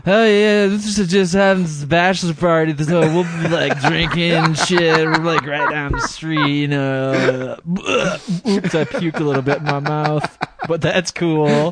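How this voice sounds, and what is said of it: Drunk, wasted-sounding impression. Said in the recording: “your impression of yourself at that point ... I was really wasted”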